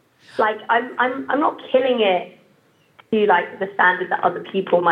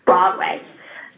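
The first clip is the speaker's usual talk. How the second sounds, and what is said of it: Imitates an American accent. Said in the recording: “You like how I impersonated you guys.”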